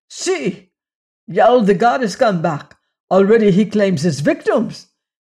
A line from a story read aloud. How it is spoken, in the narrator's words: one of the captains cried out